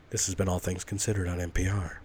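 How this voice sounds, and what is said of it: Mock public radio announcer voice. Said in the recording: “That's my NPR voice ... You gotta sound like you're just holding back a little laugh, just a little.”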